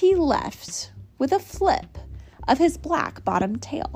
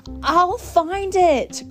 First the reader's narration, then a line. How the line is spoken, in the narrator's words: cried Horton